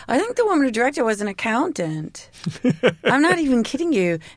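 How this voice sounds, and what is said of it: Weird half put-on accent. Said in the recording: “what is that weird... kind of weird half accent I'm doing. I don't even know.”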